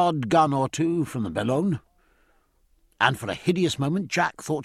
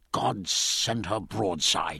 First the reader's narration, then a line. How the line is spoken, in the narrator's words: muttered